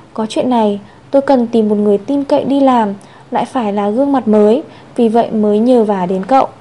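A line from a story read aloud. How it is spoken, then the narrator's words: Slow, measured. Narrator (Vietnamese): Chu Diễn Chiếu chậm rãi nói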